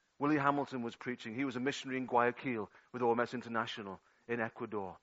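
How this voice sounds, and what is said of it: Liverpool Scouse accent. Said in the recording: “I'm a Scouser from Toxteth ... your accent leaves much to be desired”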